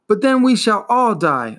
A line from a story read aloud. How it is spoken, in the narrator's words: Atreyu screamed